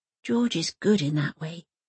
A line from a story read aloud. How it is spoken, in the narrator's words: she whispers